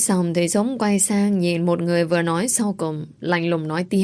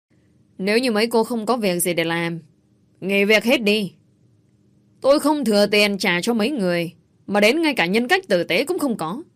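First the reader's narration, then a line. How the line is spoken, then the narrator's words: Cold distant shout. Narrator (Vietnamese): giọng của Dũng lạnh lùng quát lên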